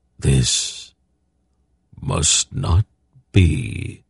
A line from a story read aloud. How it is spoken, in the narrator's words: the awareness said in a soundless voice